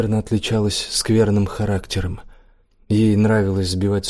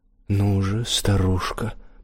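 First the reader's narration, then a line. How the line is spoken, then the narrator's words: Through gritted teeth. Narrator (Russian): Процедил он сквозь зубы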